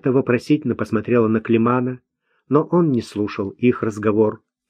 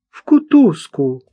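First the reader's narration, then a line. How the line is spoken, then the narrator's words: Cried out. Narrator (Russian): вскрикнула Марта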